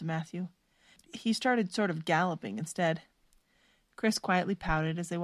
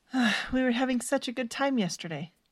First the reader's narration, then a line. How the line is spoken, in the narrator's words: Stephanie sighed